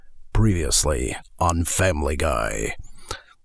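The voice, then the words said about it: Low, raspy, ominous announcer voice. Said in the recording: “Do a very ominous sounding, very omnipotent god, angry ... doing the previous voice. Just get it low, get a little bit of rasp to it”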